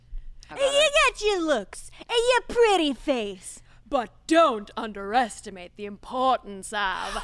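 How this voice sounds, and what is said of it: Imitates Ursula character voice. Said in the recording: “someone's best Ursula impression ... Those were all very good.”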